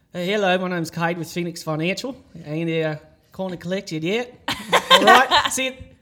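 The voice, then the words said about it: Poor put-on Australian accent. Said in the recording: “I used to call people in an Australian accent ... It was awful ... It's not great, but it gets the job done”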